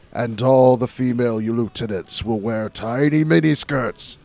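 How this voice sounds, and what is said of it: Evil overlord voice as Roy Mustang. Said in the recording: “my evil overlord voice... All right, Roy Mustang, simmer down”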